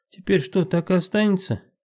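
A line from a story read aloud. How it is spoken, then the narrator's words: Laughing. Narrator (Russian): Маша рассмеялась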